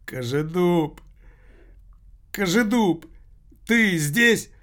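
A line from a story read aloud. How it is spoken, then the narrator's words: Words broken by sobs. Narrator (Russian): Слова перемежались всхлипами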